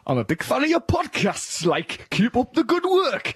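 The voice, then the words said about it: Put-on Geordie accent. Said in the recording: “this says it's to be read in a Geordie accent ... I thought that like was a Geordie like”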